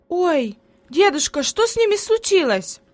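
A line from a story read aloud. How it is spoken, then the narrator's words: Surprised exclamation. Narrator (Russian): воскликнула удивленно Хайди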